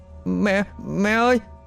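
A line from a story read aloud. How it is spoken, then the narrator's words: Terrified child, trembling call. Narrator (Vietnamese): Thằng bé sợ đến tái mặt, run rẩy gọi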